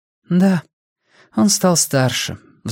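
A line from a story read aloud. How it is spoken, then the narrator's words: Sighing. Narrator (Russian): вздохнула Париза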